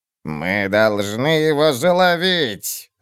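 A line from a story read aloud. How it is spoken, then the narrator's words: Growl. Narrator (Russian): зарычала Пулли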